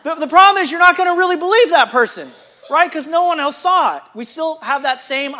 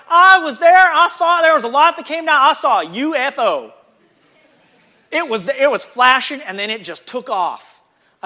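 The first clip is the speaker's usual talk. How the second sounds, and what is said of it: Put-on Southern American accent. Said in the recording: “I don't know why that came out as a Southern accent, but it did.”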